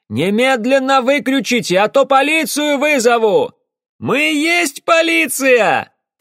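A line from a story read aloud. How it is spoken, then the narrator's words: Shouted reply. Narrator (Russian): крикнула в ответ Кэсси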